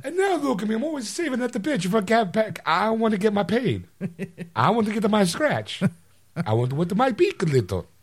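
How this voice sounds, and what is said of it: Mario cartoon character voice. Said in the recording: “Do you know how rich I'd be if I got paid every time I did this voice? ... it's me, Mario”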